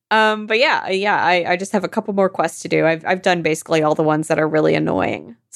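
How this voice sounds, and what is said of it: Creaky, tired-sounding voice. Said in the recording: “my voice is creaking so much, and it's because I'm tired and thirsty.”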